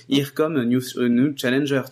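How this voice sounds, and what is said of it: Put-on English accent. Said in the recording (French): “je dit avec un bon accent anglais”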